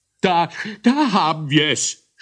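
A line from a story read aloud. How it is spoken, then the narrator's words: Nasal shout, heavy cold. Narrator (German): schrie der reichlich verschnupfte und darum besonders dicknasige Moglerrichter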